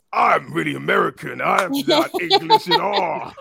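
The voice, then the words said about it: Bad put-on American accent. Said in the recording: “That's American voice ... Is that your American voice, really? That's horrible.”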